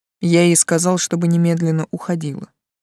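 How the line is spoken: Calm reply. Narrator (Russian): спокойно ответил Тан

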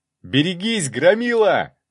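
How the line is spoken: Yelling. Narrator (Russian): заорал

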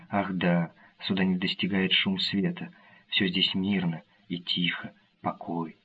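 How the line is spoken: Soft, beautiful voice. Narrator (Russian): Она сказала тихим прекрасным голосом

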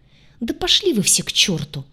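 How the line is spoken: Angry exclamation. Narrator (Russian): в сердцах воскликнула

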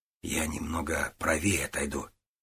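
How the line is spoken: Quiet. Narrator (Russian): тихо сказал ему Гуров

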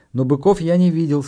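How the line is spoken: Sad male voice. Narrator (Russian): сказал он печально

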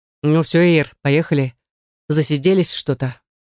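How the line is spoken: Hoarse deep bass. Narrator (Russian): хриплым басом сказал

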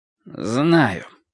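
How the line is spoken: Dry reply. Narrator (Russian): сухо ответил Ал

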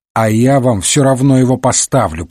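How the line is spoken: Grumbling. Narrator (Russian): проворчал Уотсон

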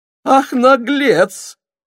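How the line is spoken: Exclamation. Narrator (Russian): воскликнул Георгий Иванович

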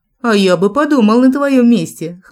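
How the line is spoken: Snort. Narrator (Russian): хмыкнул Джек

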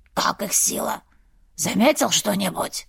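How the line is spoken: Heavier rasping wheeze. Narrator (Russian): Первый еще сильнее захрипел

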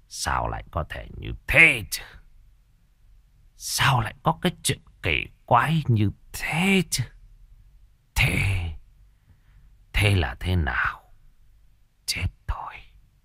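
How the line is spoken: Anxious muttering. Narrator (Vietnamese): Ông Bá Điền lẩm bẩm

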